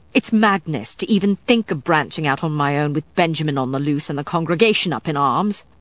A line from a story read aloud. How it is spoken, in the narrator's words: Matthew snapped